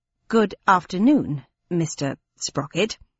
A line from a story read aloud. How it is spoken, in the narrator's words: she said coldly